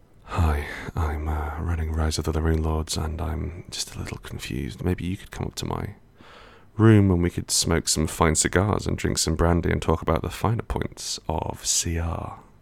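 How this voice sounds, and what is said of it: Character voice of Pathfinder GM. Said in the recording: “Can I try a different voice of the Pathfinder GM?”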